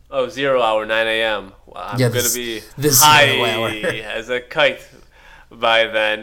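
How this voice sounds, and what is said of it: Imitates another person's voice. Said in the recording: “my William Shatner impression”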